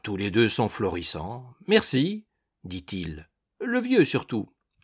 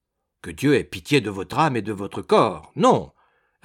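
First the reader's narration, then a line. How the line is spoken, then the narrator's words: Curt reply. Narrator (French): répondit Wemmick sèchement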